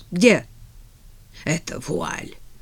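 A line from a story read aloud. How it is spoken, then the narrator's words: Hoarse broken voice. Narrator (Russian): хриплым прерывающимся голосом спросила она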